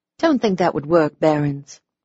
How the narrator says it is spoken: I said sweetly

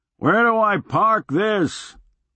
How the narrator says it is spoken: Leo hollered up

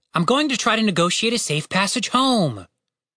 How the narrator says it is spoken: Tim pleaded

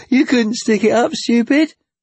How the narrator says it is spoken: Tommy laughed

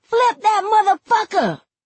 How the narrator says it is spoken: Then somebody yells

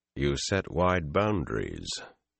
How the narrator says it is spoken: Taim said dryly

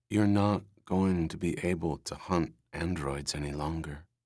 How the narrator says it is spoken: she said calmly

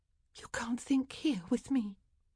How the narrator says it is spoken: she whispered

